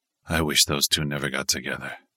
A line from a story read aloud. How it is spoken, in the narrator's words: he mumbled